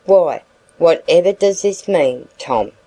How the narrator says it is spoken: said Mr

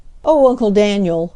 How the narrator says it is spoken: he cried

